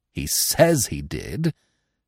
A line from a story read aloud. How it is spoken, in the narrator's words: sneered Professor Small